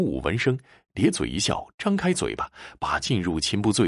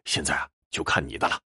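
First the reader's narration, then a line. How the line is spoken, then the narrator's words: Low, after heavy drinking. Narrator (Chinese): 秦不醉灌下第八坛酒之后，低声跟小五说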